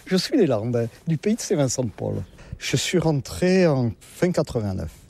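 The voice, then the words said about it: Southwestern French regional accent. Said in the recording (French): “comme vous l'entendez, je ne suis pas de la région... Avec mon accent, je ne suis pas du Nord-la-Loire”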